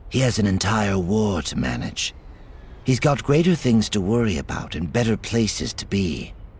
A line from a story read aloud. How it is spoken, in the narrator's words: Lying smoothly, she replied